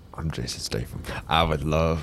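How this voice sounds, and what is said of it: Put-on southern accent. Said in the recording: “I forgot the accent. I started going southern”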